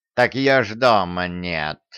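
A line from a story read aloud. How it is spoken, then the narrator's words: Snort. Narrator (Russian): хмыкнул Васька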